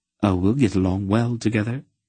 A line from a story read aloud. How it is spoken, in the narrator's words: Aunt Paul answered warmly, smiling at him